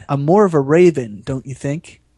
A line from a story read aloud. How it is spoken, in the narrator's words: he smoothly replied